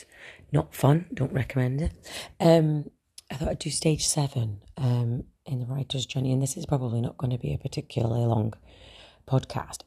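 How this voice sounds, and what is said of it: Hoarse, strained, mostly lost voice. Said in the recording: “I have lost my voice again”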